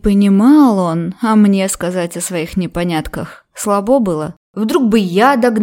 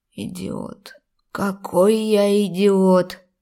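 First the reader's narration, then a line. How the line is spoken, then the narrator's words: Upset wheeze. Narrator (Russian): Голос расстроенно сипел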